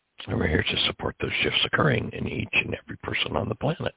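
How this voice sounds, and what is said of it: Slightly hoarse voice. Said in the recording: “Your voice sounds hoarse, more so than it does in person. ... It is a little bit hoarse, yes. ... I'm still hoarse from yesterday. ... So throat is still a little bit sore.”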